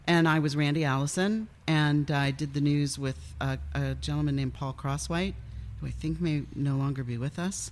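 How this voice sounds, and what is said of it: Smooth, velvety radio voice. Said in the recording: “You do have a really good radio voice ... It's very smooth and like it's velvety.”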